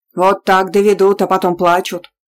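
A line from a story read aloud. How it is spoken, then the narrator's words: Grumbling old woman. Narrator (Russian): буркнула бабка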